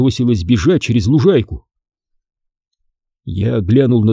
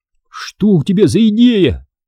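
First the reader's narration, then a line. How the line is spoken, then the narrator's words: Shouting. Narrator (Russian): крикнул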